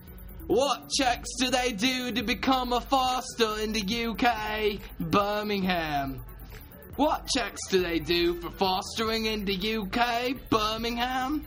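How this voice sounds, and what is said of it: Put-on British accent. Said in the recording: “I need to bust out my blimey accent for this one.”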